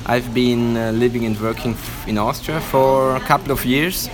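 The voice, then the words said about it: Atypical Italian accent, slightly Swiss. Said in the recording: “your accent ... It's not a typical Italian accent ... there's a bit of a Swiss... Swissness”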